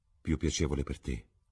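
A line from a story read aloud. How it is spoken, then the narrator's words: Regretful murmur. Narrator (Italian): mormorò Basil Hallward con rimpianto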